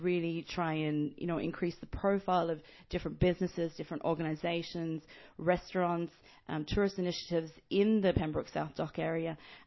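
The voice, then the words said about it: Australian accent. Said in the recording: “picking on the accent a little, where are you from? ... I'm not from Ireland originally. I'm from Australia.”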